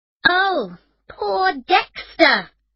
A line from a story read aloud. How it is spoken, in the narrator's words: Emma said angrily